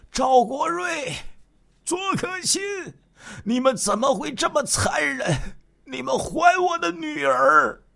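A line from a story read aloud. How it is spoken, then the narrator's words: Choked, grief-stricken, angry questioning. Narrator (Chinese): 徐德新再也无法控制自己的情绪，他声音哽咽着，悲愤质问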